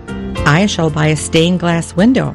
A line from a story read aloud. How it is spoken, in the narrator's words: I said